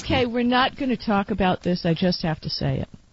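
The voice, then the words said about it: Deep, ill-sounding voice. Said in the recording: “She has got 117 fever... I must sound a little funny, though. It's a little deep in the voice today... your radio voice”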